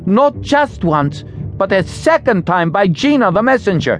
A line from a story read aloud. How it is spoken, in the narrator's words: Wren shouted defensively